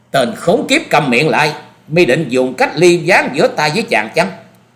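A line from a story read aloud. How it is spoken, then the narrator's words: Angry loud shout. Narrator (Vietnamese): Phan Quyên Quyên tức giận quát to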